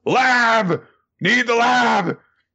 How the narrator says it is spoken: she just screams out the top of her lungs

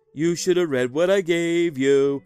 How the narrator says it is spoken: he said in a sing song voice

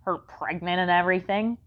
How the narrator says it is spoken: she grumbled

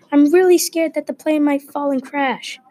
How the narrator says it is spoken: Finn screamed at the top of his lungs

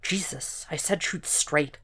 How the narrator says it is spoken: Will muttered

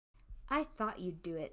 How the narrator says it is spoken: said Mrs

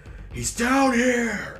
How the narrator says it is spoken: Barsta screams out

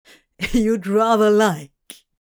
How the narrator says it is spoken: Crowley bit back his laugh

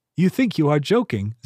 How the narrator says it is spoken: Zirheen said, laughing lightly

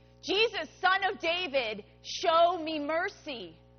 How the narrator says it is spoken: Bartimaeus shouted even louder

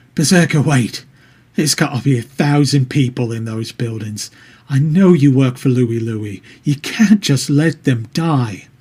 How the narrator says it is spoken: pleading

